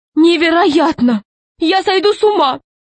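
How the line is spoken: Exclamation. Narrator (Russian): воскликнула Каролина Павловна

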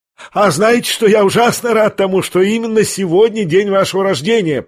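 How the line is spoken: Shouted. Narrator (Russian): прокричал Ипполит

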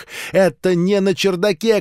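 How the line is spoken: Shout. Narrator (Russian): крикнул Генри

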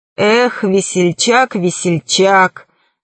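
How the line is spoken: Sighing. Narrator (Russian): вздохнул крыс

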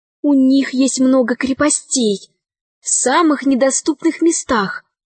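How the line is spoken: Whispering. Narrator (Russian): шептала Мариам

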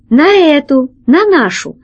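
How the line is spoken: Exclamation. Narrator (Russian): воскликнул лохматый практикант

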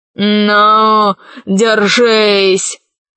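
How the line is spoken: Emperor growling. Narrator (Russian): зарычал император

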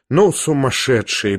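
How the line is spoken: Muttered. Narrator (Russian): пробормотала Лизавета Прокофьевна

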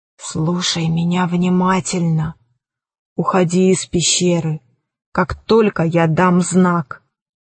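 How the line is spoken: Old woman whispering. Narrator (Russian): старуха прошептала

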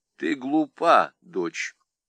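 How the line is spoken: Calm. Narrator (Russian): спокойно сказала Екатерина Алексеевна

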